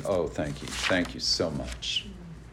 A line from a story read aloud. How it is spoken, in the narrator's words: my mother muttering